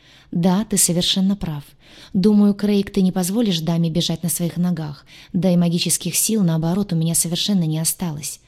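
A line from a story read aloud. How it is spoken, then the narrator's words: Sly sigh. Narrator (Russian): вздохнула она с лукавой улыбкой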